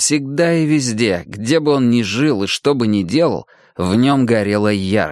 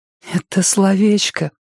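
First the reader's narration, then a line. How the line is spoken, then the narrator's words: Whisper. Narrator (Russian): прошептала Ли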